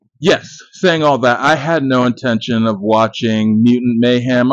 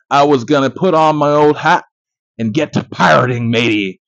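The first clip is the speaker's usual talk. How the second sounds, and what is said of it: Bad put-on pirate accent. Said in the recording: “I really need to stop with this accent shit. I just don't have it. ... the accents guy, that's not me ... Sorry to pirates and sorry to British people for butchering your accents.”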